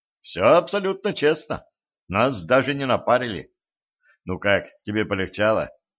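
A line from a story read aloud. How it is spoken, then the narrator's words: Breathless. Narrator (Russian): Катран выдохнула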